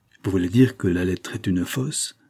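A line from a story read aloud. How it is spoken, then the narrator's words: Low-voiced question. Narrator (French): demanda Madeleine à voix basse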